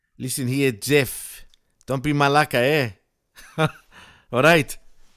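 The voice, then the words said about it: Put-on Greek accent. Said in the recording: “I can do a Greek accent”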